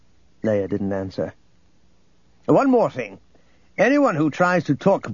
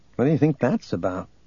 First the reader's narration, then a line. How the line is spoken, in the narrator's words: Luke murmured to Gariel